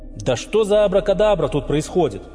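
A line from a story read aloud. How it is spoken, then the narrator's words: Shouting. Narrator (Russian): прокричал Артём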